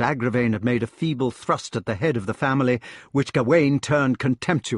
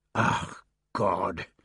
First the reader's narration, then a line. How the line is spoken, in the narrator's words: he muttered